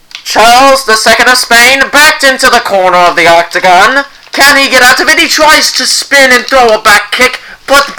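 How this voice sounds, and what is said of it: Sports announcer voice. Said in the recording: “I'll do my announcer voice for this.”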